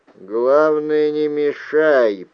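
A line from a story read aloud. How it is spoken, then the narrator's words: Grumbled. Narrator (Russian): проворчал Джулиан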